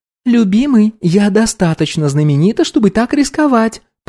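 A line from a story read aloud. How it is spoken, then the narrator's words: Cooing. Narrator (Russian): проворковала Окей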